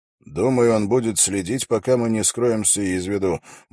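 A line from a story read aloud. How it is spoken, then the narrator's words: Grumble. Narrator (Russian): буркнул Холт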